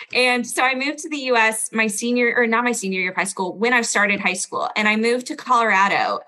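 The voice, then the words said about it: Standard American accent. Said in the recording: “you do have an accent. I feel like you have an American accent. You have a standard American accent.”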